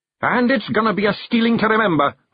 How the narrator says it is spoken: Rob yelled to another cheer

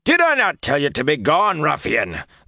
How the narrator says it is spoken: the fat man bellowed

